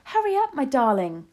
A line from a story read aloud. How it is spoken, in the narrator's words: shouted